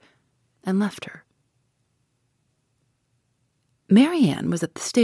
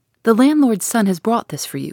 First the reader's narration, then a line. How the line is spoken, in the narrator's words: said